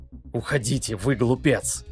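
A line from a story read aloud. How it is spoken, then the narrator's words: Whispered. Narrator (Russian): прошептал Гард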